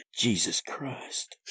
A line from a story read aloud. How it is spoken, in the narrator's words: Seth muttered